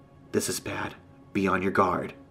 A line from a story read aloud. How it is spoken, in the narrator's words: she whispers